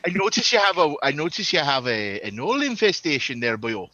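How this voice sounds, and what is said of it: Put-on Welsh or Irish accent. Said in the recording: “Probably Welsh. ... Welsh. Probably Welsh. ... Welsh, Irish.”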